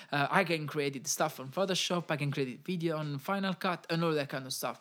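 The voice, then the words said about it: Non-native English accent. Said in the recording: “sometimes it's I'm not the best with my accent”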